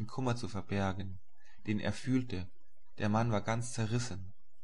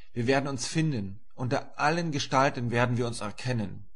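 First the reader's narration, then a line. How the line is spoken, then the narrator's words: Called out. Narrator (German): rief ich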